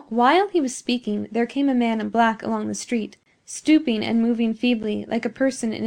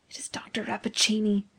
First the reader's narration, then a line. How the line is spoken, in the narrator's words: whispered the professor